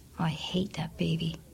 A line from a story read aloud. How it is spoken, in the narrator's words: she whispered